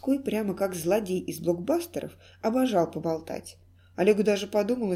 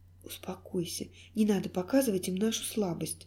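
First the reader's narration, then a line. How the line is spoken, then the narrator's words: Soothing whisper. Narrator (Russian): прошептала Алиса, пытаясь успокоить малыша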